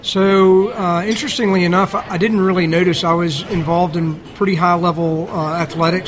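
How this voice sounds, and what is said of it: Regional accent. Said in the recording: “Accent kind of gives it away a little bit.”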